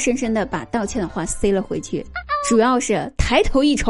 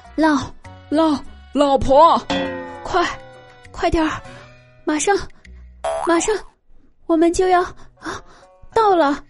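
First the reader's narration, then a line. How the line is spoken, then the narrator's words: Husband, panting breathlessly. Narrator (Chinese): 她老公在旁边，同样喘着粗气说道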